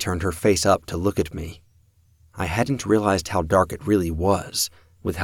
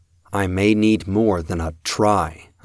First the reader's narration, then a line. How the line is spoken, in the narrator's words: said